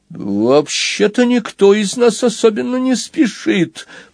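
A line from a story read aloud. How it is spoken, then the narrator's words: Squeaky. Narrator (Russian): пропищал Граджиут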